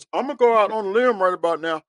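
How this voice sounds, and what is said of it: Imitates another person's voice. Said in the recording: “in my Charles Barkley voice.”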